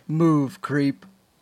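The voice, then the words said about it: RoboCop impression, muffled by bottle. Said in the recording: “It's a great impression. ... you put a bottle in your mouth when you did that ... RoboCop”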